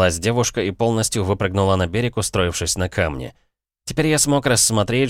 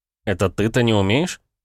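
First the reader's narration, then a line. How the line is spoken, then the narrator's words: Snort. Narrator (Russian): хмыкнул я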